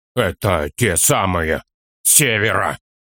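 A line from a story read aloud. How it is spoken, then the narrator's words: Hoarse choking words. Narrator (Russian): хрипло, давясь словами, выговорил Торин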